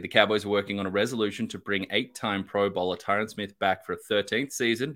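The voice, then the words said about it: Foreign-sounding accent. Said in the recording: “You have the better voice ... with the accent completely foreign to Cowboys chat”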